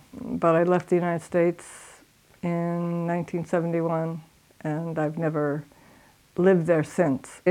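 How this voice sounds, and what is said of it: American accent. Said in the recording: “As you can probably hear from my accent, I originate from San Diego, California.”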